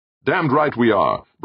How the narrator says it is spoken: Brandon snapped

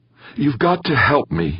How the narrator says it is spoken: Victor Molina said, his voice trembling slightly

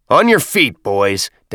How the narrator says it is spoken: Das bellowed

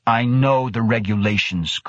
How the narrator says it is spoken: Krebs snapped

